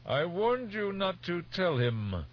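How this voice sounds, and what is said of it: Grating baritone with an accent. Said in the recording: “The voice was a grating baritone with an accent new to Teg.”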